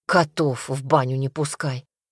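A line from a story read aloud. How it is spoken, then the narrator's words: Muttering. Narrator (Russian): бормотал Василий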